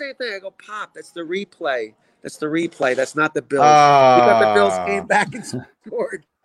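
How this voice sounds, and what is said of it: Usual voice. Nothing is said of it.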